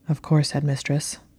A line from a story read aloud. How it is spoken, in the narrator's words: Draco said quietly